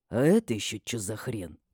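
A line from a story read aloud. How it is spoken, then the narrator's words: Quiet but distinct question. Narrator (Russian): Тихо, но отчетливо слышно спросил Матиас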